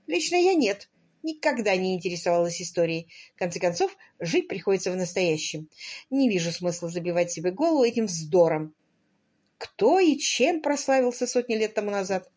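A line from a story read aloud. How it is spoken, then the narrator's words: Merry laughter. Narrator (Russian): Аннабелл Скотт весело засмеялась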